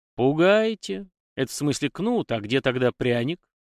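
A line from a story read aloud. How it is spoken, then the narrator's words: Sad wry chuckle. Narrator (Russian): Грустно усмехнулся Егор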